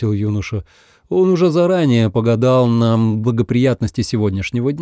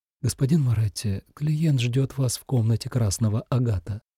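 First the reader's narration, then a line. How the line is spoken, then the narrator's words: Quiet. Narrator (Russian): красавица Анжелика тихо сказала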